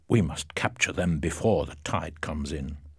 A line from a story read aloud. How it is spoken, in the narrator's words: The captain said quietly